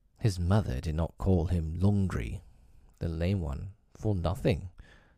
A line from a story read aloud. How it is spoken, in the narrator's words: said Mother Wolf quietly